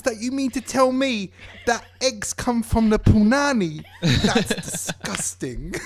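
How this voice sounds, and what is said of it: Put-on accent, done well. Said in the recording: “That was a good accent. ... Mm. It was very good. ... You did well.”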